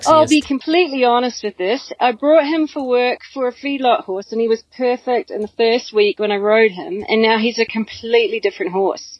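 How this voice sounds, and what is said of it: Put-on Australian accent. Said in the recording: “in my best Australian accent ... Australian accents were the sexiest”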